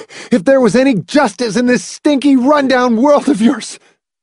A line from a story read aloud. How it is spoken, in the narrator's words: he gasped